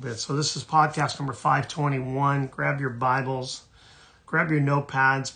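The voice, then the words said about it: Hoarse, strained voice. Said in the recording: “My voice is shot. ... Apologize for my voice”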